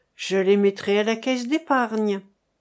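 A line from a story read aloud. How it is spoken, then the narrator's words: Young man stifling sigh. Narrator (French): dit le jeune homme en étouffant un soupir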